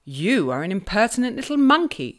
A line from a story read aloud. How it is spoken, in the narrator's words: exclaimed Mrs